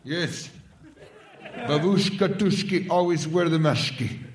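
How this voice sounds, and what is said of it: Put-on mixed foreign accent. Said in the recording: “That sounds like a mix of 6 or 7 different accents.”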